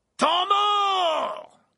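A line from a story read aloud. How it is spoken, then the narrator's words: Shouted. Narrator (French): cria la voix de Verpé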